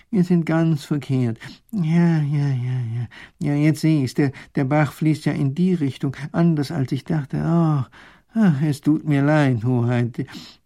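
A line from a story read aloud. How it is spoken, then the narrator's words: Professor's groan. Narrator (German): stöhnt der Professor auf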